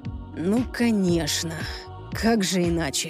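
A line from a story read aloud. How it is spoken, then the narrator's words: Disappointed sigh. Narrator (Russian): Люциан разочарованно вздохнул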